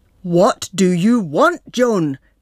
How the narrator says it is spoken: bellows the nurse

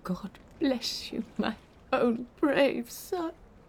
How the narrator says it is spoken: she sobbed

